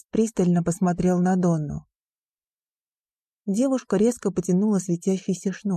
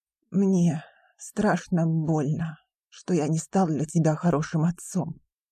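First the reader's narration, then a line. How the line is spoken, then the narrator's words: Hoarse rasp. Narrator (Russian): прохрипел Маккеден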